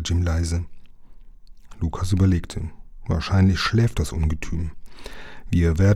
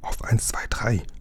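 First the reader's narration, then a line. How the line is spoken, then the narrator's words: Whisper. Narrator (German): flüsterte Lukas seinem Freund zu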